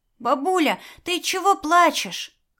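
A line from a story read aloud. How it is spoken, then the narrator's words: Shouting. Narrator (Russian): кричал Тошка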